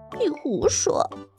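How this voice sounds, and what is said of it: Very small, quiet voice. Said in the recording (Chinese): “弟弟却用好小好小的声音说”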